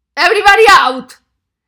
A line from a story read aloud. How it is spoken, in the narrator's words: Raymond shouted in low voice